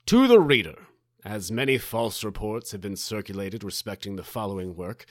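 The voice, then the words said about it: Theatrical prince-like character voice. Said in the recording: “I'll do it in my prince voice”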